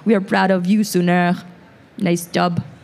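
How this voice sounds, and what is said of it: Light put-on French-Canadian accent. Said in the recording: “My mom has, like, a French-Canadian accent... it's not that thick either”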